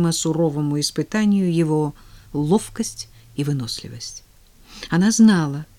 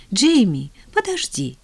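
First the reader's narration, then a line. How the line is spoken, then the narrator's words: Ardent exclamation. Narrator (Russian): с жаром воскликнула она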